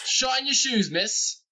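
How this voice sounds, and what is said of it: Bad put-on English accent. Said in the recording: “Are we all turning into bad English accents?”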